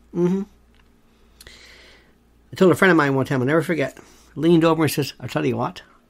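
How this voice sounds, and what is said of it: Irish accent, brogue. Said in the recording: “Irish. Not Irish American, not narrowback, but Irish ... I love the way you have that accent ... I love the way y'all have that brogue”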